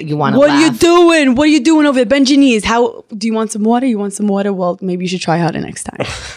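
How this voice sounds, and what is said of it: Put-on Brooklyn accent with attitude. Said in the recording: “Do they have the accent and everything? ... they talk like this. My dad like has a good Brooklyn accent. ... a lot of attitude”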